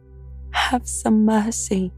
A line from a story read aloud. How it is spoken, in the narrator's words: cried